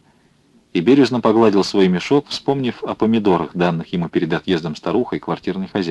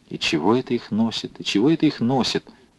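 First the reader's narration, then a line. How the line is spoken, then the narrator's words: Young man muttering. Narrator (Russian): бормотал молодой красноармеец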